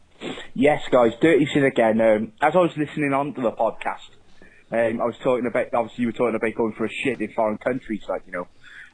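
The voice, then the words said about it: Regional English accent. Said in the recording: “I love ... accent. English people, write into Facebook or something and tell me what region of England that this accent comes from ... Is it Welsh? ... No.”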